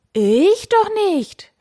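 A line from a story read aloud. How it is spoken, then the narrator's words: Knight calling out. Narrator (German): rief der Ritter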